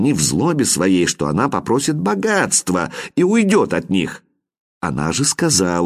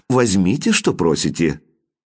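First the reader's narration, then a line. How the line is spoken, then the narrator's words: Calm reply. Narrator (Russian): Она спокойно ответила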